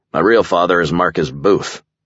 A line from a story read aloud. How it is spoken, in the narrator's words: I snapped, a little too harshly